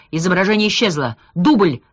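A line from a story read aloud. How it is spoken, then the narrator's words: Shouted. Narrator (Russian): крикнул Молчанов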